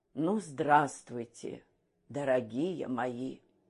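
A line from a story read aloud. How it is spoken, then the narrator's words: Tired. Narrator (Russian): он устало произнес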